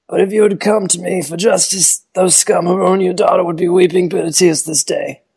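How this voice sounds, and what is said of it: Don Corleone impression. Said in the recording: “a Don Corleone impression ... Not bad. It's much better than I would have expected from you”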